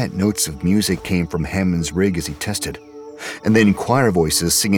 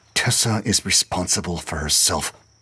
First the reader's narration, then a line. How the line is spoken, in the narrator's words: Dumont muttered under her breath